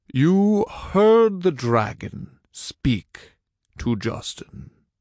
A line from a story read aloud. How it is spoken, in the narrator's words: Morgan said slowly